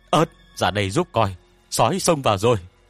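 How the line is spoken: Shouted alarm. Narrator (Vietnamese): Tôn Bập hét lên

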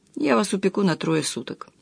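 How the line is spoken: Lazy. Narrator (Russian): сказал Никоненко лениво

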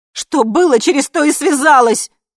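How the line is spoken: Shouted. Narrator (Russian): закричала я

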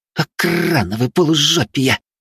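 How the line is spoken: Spiteful exhale. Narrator (Russian): злобно выдохнула двойка

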